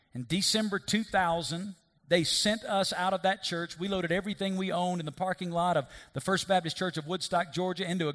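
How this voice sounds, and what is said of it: Thick accent. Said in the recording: “you think my accent's thick now? You should have heard it 17 years ago. This is 17 years of the West taking my accent away.”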